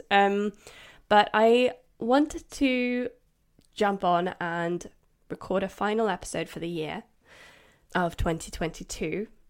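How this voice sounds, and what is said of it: Congested voice from a cold. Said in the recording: “If you can't tell, I have got a little bit of a cold. I'm still recovering from it.”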